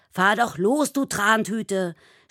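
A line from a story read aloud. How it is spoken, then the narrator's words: Angry driver shouting. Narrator (German): schreit ein Autofahrer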